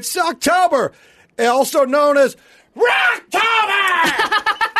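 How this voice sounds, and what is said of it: Screaming loudly. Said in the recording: “You love screaming... I love screaming... Thanks for not doing it in the microphone”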